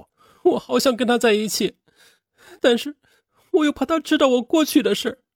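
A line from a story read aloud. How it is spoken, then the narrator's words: Crying. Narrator (Chinese): 他还曾哭着对张潇潇说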